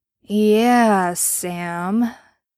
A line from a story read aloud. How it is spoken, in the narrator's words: he drawled slowly